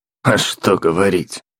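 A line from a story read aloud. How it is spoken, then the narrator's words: Snorting. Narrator (Russian): Фыркнул Дампир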